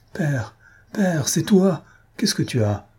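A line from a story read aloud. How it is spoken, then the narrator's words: Panicked exclamation. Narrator (French): s'écria-t-elle, affolée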